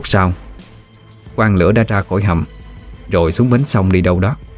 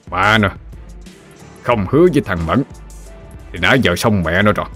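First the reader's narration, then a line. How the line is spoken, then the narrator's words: Angry speech. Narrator (Vietnamese): Quan Lửa tức giận nói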